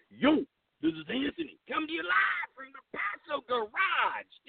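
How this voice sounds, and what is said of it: Put-on Italian-American accent. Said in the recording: “you got to get the Italian accent in there. He kind of sounds like a crackheaded Rocky.”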